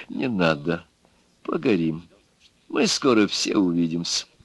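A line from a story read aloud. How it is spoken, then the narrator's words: Soft. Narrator (Russian): губошлеп мягко сказал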